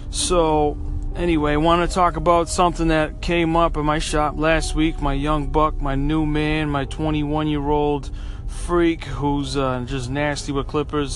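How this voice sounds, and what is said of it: Sick-sounding voice. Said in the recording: “I've been sick. I don't know if you can hear it in my voice. I got bronchitis real bad.”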